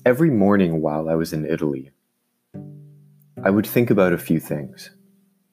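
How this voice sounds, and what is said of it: Deeper voice from a cold. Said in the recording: “apologize for the voice. Still getting over a cold. It's now moved to a cough ... My voice might sound a little deeper than usual.”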